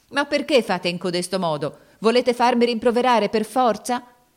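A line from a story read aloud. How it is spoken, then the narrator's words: Shouting angrily, near tears. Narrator (Italian): gridava con voce di rabbia e di pianto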